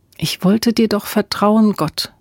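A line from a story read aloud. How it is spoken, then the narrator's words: Quiet prayer. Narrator (German): betete sie leise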